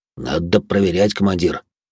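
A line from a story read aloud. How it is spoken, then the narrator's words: Grumbling. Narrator (Russian): пробурчал Грохот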